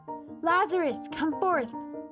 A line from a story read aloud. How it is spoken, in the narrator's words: he cried in a loud voice